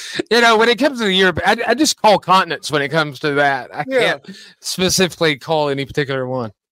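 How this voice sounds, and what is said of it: Usual voice. Nothing is said of it.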